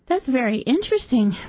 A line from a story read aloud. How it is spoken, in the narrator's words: Miss Arbor cried